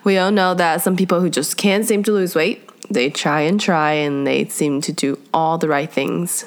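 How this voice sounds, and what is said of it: Voice sounds sick. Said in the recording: “my voice is pretty much... I am sick”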